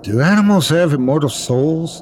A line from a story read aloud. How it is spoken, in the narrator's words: He asked anxiously